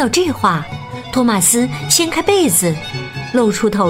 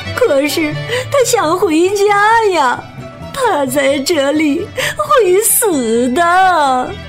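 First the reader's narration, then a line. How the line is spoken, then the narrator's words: Crying. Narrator (Chinese): 比目鱼阿姨哭道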